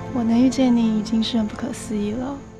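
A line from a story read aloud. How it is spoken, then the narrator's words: Wistful sigh. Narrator (Chinese): 没缘由的感叹了一句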